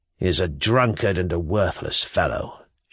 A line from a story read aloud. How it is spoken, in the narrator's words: Shatov muttered with apparent reluctance